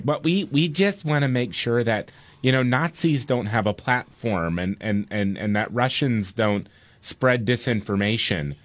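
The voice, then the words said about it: Imitates another person's voice. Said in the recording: “Now, you tell me who I'm impersonating there.”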